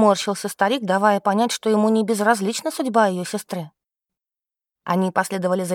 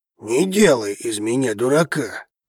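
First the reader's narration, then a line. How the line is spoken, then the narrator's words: Man's growl. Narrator (Russian): рыкнул мужчина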